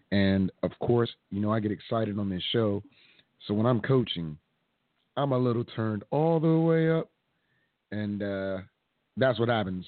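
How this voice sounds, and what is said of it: Hoarse, strained voice. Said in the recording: “I'm a little hoarse because I was coaching ... my voice is pretty much gone”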